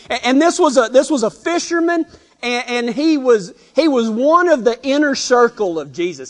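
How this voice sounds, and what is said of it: Texas accent. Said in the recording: “My Texas accent comes out whenever I start telling stories like this.”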